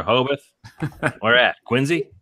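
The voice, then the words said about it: Poorly done put-on Boston accent. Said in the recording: “that's a terrible accent”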